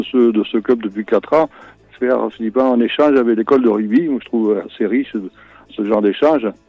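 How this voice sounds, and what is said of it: Slight southwestern French (Landes) accent. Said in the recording (French): “j'ai l'impression que vous avez un petit accent ... je suis originaire des Landes ... j'ai gardé un petit peu l'accent”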